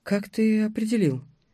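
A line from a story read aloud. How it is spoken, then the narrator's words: Quiet question. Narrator (Russian): тихо спросила девушка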